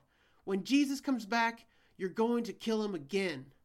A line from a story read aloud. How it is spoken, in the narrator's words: Earthquake howled